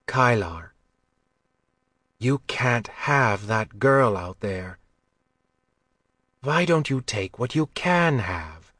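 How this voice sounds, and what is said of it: Gentle, softened voice. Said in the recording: “Her voice got gentle.”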